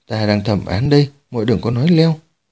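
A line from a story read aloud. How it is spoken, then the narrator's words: Lowered voice. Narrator (Vietnamese): Dương Nô Chỉ hạ giọng bảo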